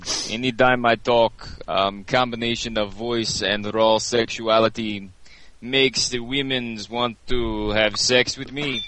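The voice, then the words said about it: Put-on Russian accent. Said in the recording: “Can ... do his Russian accent again? That was really great.”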